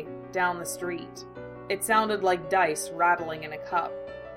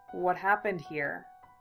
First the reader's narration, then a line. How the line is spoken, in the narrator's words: he asked quietly